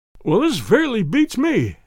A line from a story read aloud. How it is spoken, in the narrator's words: he cried at last